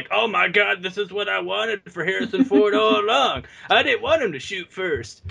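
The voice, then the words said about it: Imitates another person's voice. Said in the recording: “great George Lucas impression”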